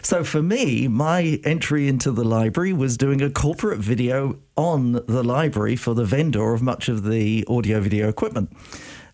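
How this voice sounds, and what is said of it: British accent. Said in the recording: “as you can probably tell, I am British, although I'm getting over a cold ... the British accent.”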